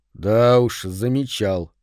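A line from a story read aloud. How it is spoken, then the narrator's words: Gloomy confirmation. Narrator (Russian): мрачно подтвердил Фрэнк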